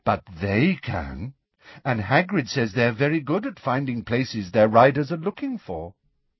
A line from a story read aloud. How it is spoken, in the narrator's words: said Luna in a dignified voice